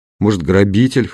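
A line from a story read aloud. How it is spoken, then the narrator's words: Snort. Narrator (Russian): хмыкнул Константин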